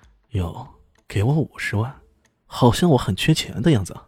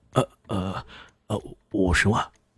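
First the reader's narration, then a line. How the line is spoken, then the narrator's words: Low, hesitant correction. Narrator (Chinese): 他低声的说着……马上改口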